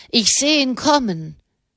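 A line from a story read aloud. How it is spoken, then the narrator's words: Man calling down. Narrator (German): rief der Mann herunter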